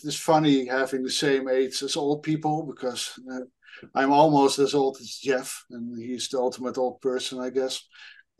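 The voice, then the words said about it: Dutch accent in English. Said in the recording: “I'm from Europe, so apologies for my accent. I'm Dutch”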